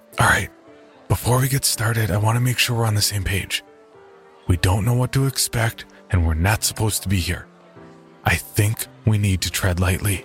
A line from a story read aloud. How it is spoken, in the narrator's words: I whispered to Jerry